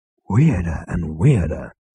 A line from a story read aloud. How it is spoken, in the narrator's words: breathed Zaphod